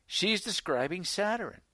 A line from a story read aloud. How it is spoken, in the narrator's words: Elder Bates exclaimed